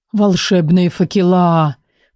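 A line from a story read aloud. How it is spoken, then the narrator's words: Breathless exclamation. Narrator (Russian): выдохнул Никол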